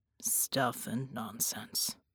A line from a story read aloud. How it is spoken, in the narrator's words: Bull muttered